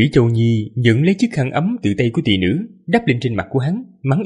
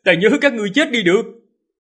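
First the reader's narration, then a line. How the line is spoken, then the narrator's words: Laughing loud shout. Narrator (Vietnamese): Hắn cười lớn, hét lên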